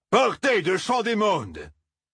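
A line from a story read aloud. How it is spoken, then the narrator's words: Hateful roar, farmer. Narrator (French): rugit haineusement le fermier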